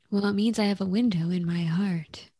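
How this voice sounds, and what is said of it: Sultry radio-host voice. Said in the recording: “my NPR voice ... a sultry NPR voice”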